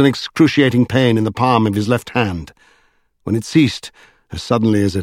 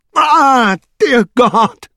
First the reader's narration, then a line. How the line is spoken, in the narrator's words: screamed Strange